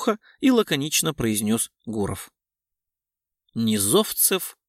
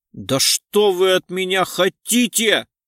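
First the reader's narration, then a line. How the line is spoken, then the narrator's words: Yelling. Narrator (Russian): завопил парень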